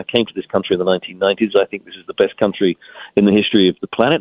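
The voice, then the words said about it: Foreign, non-native English accent. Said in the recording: “as you can tell from my accent, I wasn't born in this country”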